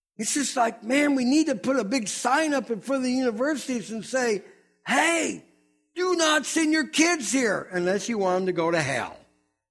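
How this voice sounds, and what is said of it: Fiery fire-and-brimstone preacher delivery. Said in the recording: “I sound like a really brimstone preacher this morning”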